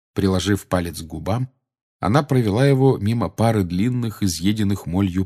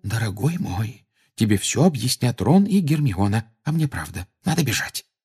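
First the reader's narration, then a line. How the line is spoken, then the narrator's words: Anxious whisper. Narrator (Russian): встревоженно прошептала миссис Уизли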